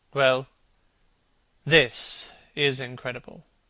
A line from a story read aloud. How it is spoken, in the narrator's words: repeated Hallward, rather bitterly